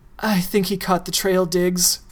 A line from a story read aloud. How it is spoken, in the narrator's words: she breathed